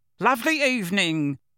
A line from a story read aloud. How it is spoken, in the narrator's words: shouted Uncle Vernon